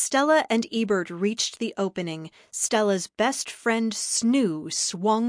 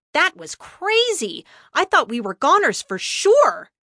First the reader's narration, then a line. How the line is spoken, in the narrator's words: he exclaimed